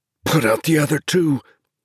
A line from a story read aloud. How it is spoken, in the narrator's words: he said hoarsely